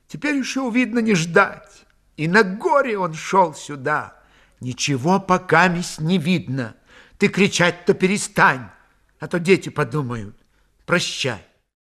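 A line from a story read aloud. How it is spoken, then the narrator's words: Wondering sigh. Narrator (Russian): Девясь ее спокойствию, Дуняшка вздохнула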